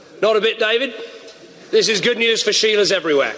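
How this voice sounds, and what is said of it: Attempted Australian accent. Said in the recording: “the Australian Prime Minister ... I can't quite do the accent, but I'll try.”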